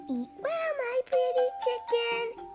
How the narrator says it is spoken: he cried

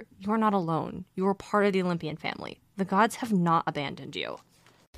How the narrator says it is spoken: A voice inside him seemed to whisper

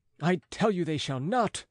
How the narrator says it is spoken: cried the boy, livid with anger as he struggled in the grasp of the school servants

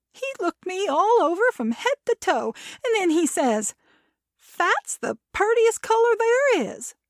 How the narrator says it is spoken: Kirsten laughed

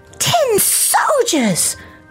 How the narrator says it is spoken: cried a voice

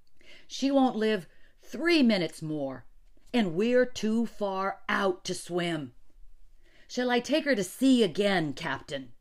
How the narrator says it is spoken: cried out

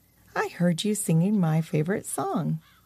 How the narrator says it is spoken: The creature looked right at them calmly and said

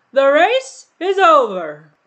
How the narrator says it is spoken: the Dodo suddenly called out

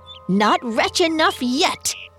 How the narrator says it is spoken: Walter bellowed in fury

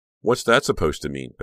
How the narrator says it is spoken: Becca snapped

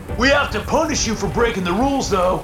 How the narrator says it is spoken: shouted again

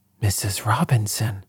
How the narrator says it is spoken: gasped

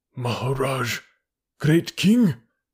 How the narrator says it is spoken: he said at last in a husky whisper

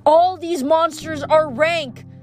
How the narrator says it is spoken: Piper yelled

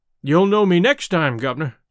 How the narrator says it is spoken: I said

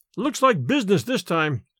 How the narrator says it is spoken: exclaimed Larry

